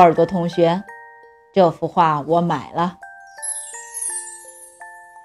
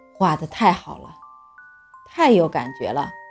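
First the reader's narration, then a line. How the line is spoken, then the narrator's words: Continuous admiring praise. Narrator (Chinese): 不停地赞叹着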